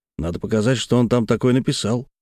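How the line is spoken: Plain. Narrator (Russian): сказал редактор

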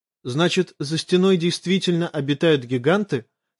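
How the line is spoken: Uncertain question. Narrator (Russian): спросил он Оши неуверенным тоном

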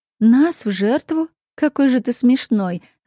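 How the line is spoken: Laughing. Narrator (Russian): рассмеялась я

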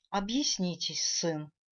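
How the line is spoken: Majestic, slightly agitated. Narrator (Russian): Величественно, но немного взволнованно сказала королева

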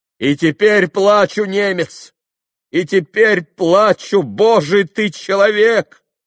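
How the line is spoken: Sudden shout. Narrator (Russian): крикнул вдруг Митя со своего места

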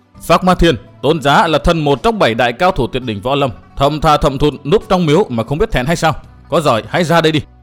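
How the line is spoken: Loud, shaken voice. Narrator (Vietnamese): Chàng rung động toàn thân, lớn tiếng nói

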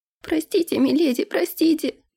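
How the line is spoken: Sobbing. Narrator (Russian): зарыдала Нэнси

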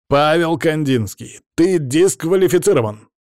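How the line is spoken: Teacher exclaiming. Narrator (Russian): воскликнул учитель

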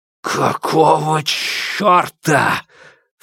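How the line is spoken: Dry inhuman hiss. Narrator (Russian): В сухом шипении, вырвавшемся из его горла, не было ничего человеческого

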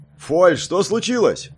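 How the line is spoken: Loud shout, elderly man. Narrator (Russian): громко крикнул пожилой маг

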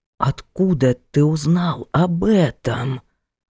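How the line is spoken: Astonished whisper. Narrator (Russian): так поразился, что перешел на шепот

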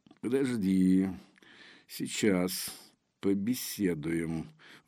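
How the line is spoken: Soundless breath. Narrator (Russian): выдохнул Мальгин беззвучно

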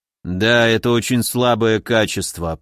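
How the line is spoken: Grumbling. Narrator (Russian): проворчал он

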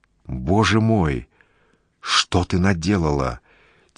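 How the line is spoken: Quiet frightened. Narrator (Russian): тихо пугается Полонский

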